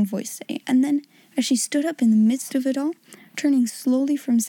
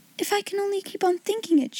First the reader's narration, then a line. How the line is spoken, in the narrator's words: she cried